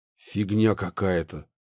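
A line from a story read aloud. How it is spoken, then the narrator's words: Exhaled. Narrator (Russian): выдохнул Пашка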